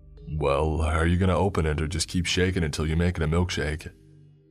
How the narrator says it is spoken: said my dad with a chuckle

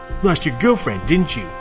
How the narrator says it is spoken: the kid sneered at Max

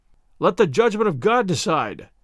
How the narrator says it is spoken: cried the knights

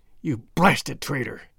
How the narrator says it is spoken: hissed McGinty through his closed teeth

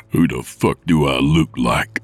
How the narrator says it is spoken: Nick growled

